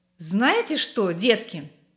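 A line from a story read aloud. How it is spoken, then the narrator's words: Cheerful father. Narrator (Russian): сказал папа весело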